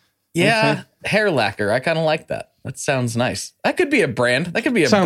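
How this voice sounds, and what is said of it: Usual voice. Nothing is said of it.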